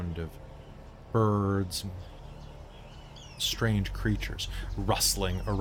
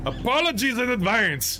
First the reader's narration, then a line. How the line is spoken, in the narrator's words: He shouts